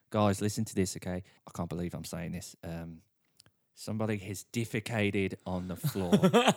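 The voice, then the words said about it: Put-on Australian accent. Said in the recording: “I like to do accents, so here's an Australian accent.”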